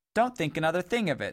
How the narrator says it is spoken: said Boot cheerfully

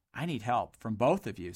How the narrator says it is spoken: said Dodd quietly in a confidential voice

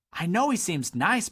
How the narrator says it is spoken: blurted Boot

